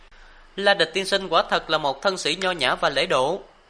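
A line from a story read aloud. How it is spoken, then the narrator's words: Knowing smile. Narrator (Vietnamese): nét cười đầy ngụ ý, nàng mỉm cười nói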